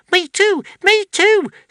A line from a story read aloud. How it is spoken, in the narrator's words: squeaked Squeeze Juice